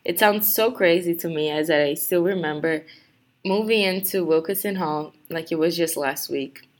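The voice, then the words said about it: Brazilian Portuguese accent. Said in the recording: “maybe you can tell by my accent that I'm not from here ... I was born in Rio de Janeiro, Brazil”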